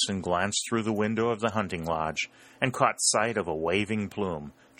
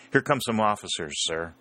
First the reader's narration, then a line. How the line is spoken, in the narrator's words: said Harry, but he added hastily